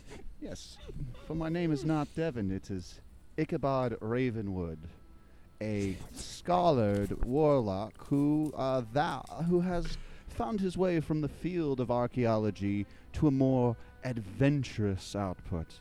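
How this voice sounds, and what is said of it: Character voice with put-on accent. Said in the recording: “it's that accent you got going”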